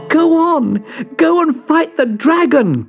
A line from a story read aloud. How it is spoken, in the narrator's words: cried Leo